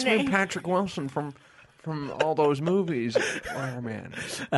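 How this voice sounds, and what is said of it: Weak impression of Patrick Wilson. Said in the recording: “doing an impersonation of Ben's impersonation, and I can't do impersonations”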